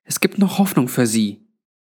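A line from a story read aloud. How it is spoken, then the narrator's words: Audible whisper. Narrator (German): meinte Granny in hörbarem Flüsterton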